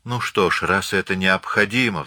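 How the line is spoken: Sighing. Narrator (Russian): вздохнула Марианна, с сожалением

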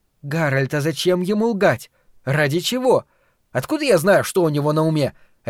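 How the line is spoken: Sharp question. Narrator (Russian): резко спросил Гарольд

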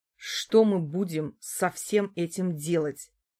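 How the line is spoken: Asked through gritted teeth. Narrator (Russian): спросил Чернов отца, с которым старался говорить, что называется, сквозь зубы

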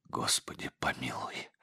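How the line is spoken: Tearful whisper. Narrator (Russian): прошептал отец Егорий, и слезы побежали по его черным щекам

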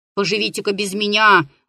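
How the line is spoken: Grumbling, anger fading. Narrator (Russian): ворчал старик, чувствуя, как у него от сердца отлегает злоба

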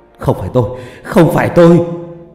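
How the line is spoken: Frightened wailing. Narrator (Vietnamese): Ông sợ hãi, miệng không ngừng gào lên

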